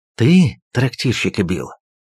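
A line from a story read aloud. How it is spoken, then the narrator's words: Quiet whisper. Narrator (Russian): тихо шепчет бродяга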